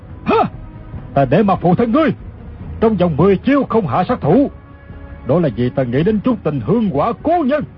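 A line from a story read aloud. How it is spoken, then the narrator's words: Shouting. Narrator (Vietnamese): Cừu Ma Trí quát lên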